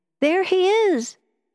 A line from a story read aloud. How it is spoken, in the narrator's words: she cried